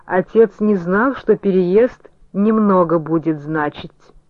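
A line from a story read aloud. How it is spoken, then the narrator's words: Dull, muffled. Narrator (Russian): Валерия Ивановна Цветаева глухо прокомментировала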